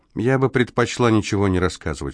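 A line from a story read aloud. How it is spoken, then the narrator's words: Calm. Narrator (Russian): спокойно произнесла Амелия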